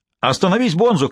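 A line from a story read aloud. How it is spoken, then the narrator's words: Shouting. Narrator (Russian): кричал Динк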